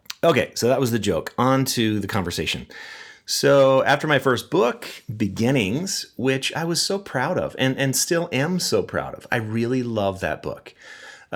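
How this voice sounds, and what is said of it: Wheezy, sick-sounding voice. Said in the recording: “my voice is kind of jacked up. I am sick, you guys. And so I feel like I have this wheezy voice. And so my laugh has a lot more wheeze to it ... I have this cold”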